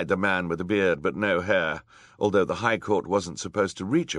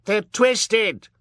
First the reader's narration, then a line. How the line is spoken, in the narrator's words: shrieked Colette